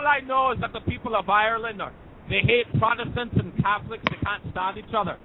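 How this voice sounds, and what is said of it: Put-on Irish accent. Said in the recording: “this Irish thing ... I've been doing this accent for quite a while now”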